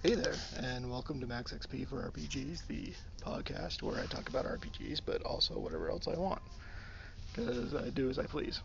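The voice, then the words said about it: Rough, tired morning voice. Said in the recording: “my voice is still a little rough ... I'm tired”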